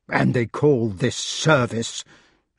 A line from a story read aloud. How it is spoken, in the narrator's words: said bitterly